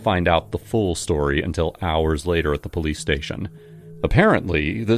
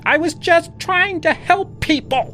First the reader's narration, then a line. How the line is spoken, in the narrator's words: She did keep on screaming